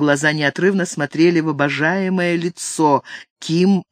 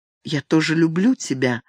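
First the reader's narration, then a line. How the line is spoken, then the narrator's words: Whisper after hesitation. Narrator (Russian): наконец прошептала она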